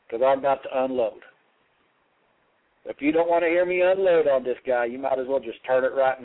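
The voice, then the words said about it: Southern American accent. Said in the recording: “my little southern accent”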